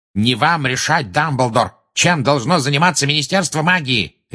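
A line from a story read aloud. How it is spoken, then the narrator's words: Furious bark. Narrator (Russian): рявкнул Фадж, теперь уже пурпурный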